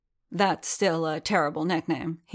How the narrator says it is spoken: he said gruffly

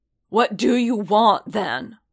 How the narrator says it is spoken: Paz growled

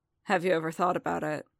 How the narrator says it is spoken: Fett asked quietly

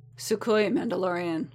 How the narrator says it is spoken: Boba rumbled

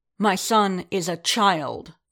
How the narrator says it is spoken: Din snapped

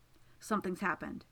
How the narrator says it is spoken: he says, and his voice is urgent

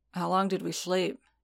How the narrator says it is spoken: Din rasped

